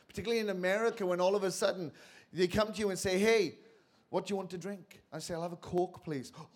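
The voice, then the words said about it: Welsh accent. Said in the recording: “You know I'm from Wales because of how I sound.”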